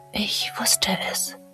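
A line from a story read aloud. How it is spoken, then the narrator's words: Barely audible whisper to herself. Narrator (German): flüsterte, ihre Stimme kaum mehr als ein Hauch, mehr zu sich selbst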